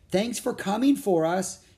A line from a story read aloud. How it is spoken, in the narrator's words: she cried